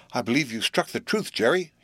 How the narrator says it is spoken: he exclaimed

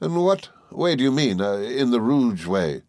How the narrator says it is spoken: said Steerforth

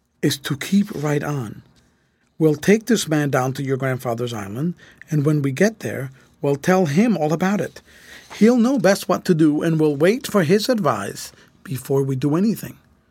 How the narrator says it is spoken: said Grant, in a low voice to Fred

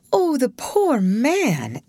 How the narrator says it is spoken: exclaimed Ruth

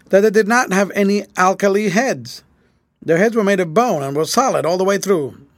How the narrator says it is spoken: said Grant solemnly

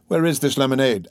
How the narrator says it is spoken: asked eagerly

